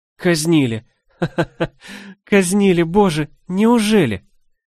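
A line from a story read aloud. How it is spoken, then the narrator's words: Laughter turning into sobs. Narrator (Russian): С каждым словом смех менялся, превращаясь во всхлипы, и я, наконец, разрыдалась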